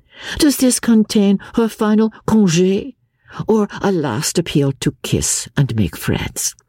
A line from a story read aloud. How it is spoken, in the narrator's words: she added playfully